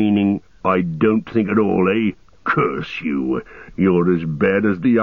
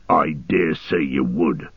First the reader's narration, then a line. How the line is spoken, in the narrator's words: snarled O'Grook